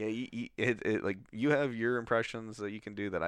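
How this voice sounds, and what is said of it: Usual voice. Nothing is said of it.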